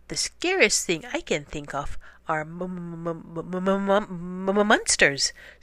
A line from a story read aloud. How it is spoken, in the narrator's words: stammered Angel, who had become a monster